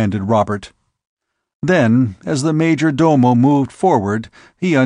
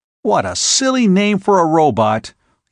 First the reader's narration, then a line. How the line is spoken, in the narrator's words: he exclaimed